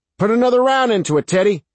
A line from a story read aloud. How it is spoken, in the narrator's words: Sarge shouted